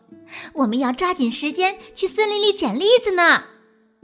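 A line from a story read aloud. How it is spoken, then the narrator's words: Loud. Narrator (Chinese): 丽塔大声地说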